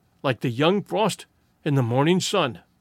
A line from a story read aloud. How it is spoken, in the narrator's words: Tyree caught his breath and murmured